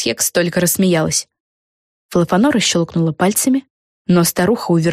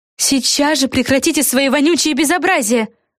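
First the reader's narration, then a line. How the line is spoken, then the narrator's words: Exclaim. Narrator (Russian): воскликнула Флафанора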